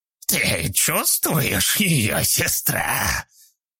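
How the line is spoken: Creaking voice. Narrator (Russian): проскрипел чей-то голос

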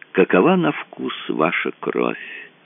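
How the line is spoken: Thoughtful addition. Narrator (Russian): добавил он задумчиво

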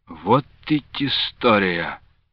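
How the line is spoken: Embarrassed sigh. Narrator (Russian): Смущенно вздохнул Лука Андреевич

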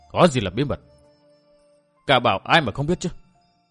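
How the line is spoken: Sulky, resentful. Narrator (Vietnamese): Vũ Phi Hùng hậm hực nói

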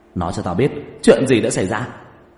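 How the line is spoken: Flustered loud shout. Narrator (Vietnamese): vẻ mặt mờ mịt luống cuống, vội kéo một tiểu đệ lại, hét lớn

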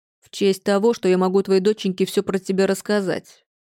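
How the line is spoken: Woman's growl. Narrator (Russian): рыкнула тетка

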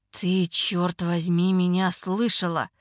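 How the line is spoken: Muttering. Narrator (Russian): бормочет

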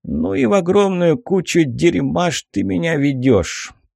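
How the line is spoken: Grumble. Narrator (Russian): проворчал он

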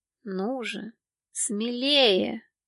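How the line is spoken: Quiet. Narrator (Russian): негромко проговорил

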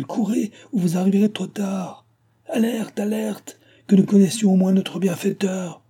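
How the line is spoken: Shouted. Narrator (French): cria-t-il

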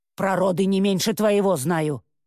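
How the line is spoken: Snapping retort. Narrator (Russian): огрызнулась та

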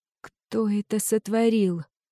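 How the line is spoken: Barely audible. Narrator (Russian): едва слышно произнесла

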